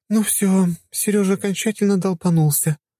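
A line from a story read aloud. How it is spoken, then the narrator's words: Sighing. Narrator (Russian): вздохнула Лиза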